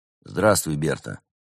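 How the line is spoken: Gloomy. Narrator (Russian): мрачно подал голос Константин

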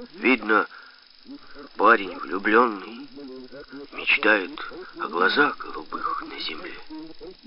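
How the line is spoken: Quiet. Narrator (Russian): Я тихо произнес

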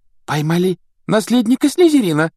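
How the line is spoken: Girl exclaiming. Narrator (Russian): воскликнула какая-то девушка за столом Когтеврана

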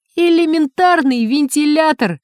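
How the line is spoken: Joyful proclamation, nervous laugh. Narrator (Russian): радостно провозгласил Синица и нервно рассмеялся

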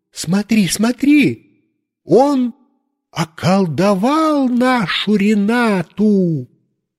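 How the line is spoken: Woman shouting. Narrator (Russian): соседка закричала своему мужу

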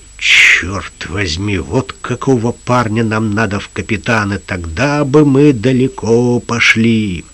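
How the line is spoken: Muttering. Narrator (Russian): один из пиратов пробормотал

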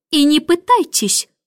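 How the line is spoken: Snorting, woman. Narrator (Russian): фыркнула Мэри Поппинс

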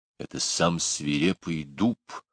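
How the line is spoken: Father whispering. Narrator (Russian): прошептал папа

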